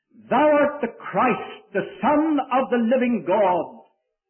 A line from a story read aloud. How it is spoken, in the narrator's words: he blurts out